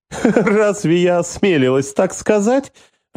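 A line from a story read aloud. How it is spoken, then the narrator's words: Laughing. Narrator (Russian): рассмеялась Лилия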